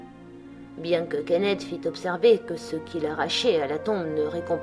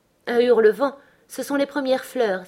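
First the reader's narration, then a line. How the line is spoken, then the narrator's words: Exclaimed. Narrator (French): s'écria-t-elle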